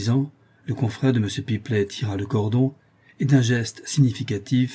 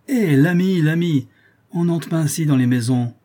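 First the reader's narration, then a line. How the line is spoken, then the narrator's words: Porter's exclamation. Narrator (French): s'écria le portier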